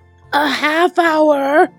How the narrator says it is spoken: He roared

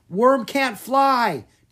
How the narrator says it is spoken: Drake yelled back

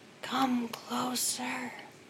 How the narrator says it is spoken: whispering

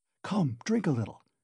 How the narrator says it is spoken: he whispered

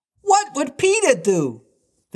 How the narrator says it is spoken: They cried simultaneously

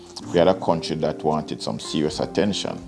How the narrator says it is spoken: Shenda said

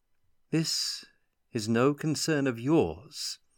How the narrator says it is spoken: the elf said in a silvery tone

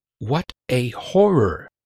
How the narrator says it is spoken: she whispered

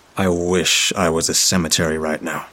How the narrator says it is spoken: I muttered

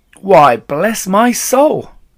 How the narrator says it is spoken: cried

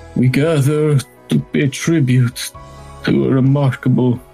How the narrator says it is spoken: he takes a deep sigh and he says

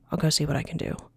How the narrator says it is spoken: quietly said

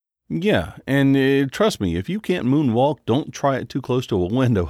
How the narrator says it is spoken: laughed

